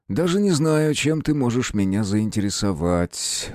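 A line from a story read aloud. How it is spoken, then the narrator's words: Sighing. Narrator (Russian): вздохнул принц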